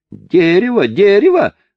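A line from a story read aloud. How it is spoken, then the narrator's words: Yelled. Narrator (Russian): завопил француз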